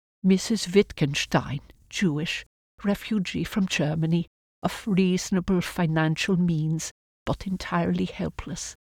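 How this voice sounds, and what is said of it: Heavy German accent. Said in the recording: “with a heavy German accent”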